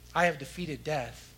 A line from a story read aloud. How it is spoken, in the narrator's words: he says